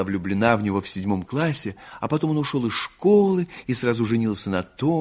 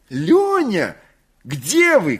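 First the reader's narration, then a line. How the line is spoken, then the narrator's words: Shouting. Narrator (Russian): кричала Александра Васильевна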